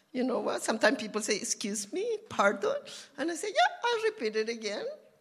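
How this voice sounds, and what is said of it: Non-native accented English. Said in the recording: “my English is with an accent.”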